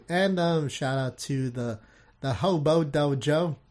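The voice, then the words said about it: Bad English accent. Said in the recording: “my terrible English accent”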